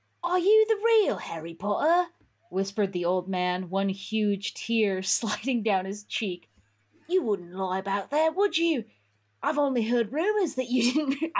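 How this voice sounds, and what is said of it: Reading aloud drifting into Australian accent. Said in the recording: “I'm getting into Australian...”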